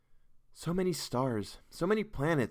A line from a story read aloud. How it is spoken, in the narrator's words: sighed Geraldine, busy with her own thoughts